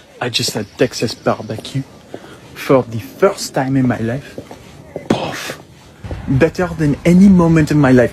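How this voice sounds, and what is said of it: Strong French accent. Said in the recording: “a random French man, and his accent is ridiculous”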